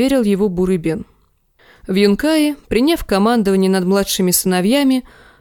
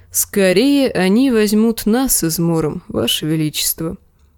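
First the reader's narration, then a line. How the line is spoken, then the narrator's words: Sad. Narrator (Russian): грустно молвил Серджурах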